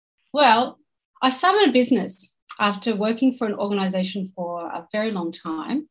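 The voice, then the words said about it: Australian accent. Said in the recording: “We've got yet another accent ... Australia”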